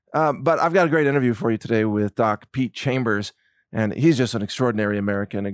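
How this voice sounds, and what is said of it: Hoarse voice. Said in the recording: “a little bit of a hoarse voice today ... I've been doing a little too much screaming”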